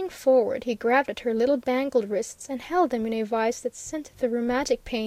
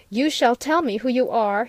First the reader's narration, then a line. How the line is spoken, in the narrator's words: he cried